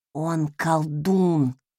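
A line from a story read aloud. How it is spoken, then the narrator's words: Ominous voice. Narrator (Russian): зловещим голосом напомнила она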